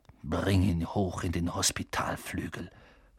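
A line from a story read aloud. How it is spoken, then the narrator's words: Snarled command. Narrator (German): fauchte Snape Seamus an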